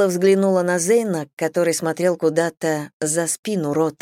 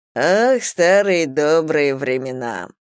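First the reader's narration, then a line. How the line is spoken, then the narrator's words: Purring, smiling. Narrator (Russian): промурлыкал Рот с улыбкой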